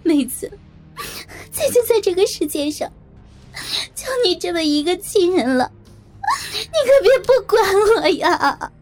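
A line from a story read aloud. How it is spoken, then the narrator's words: Tearful crying. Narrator (Chinese): 萍姐泪眼婆娑的，哭着说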